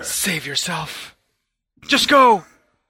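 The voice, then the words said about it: Dramatic dying-breath voice. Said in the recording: “What was that voice? ... It was my dying breath.”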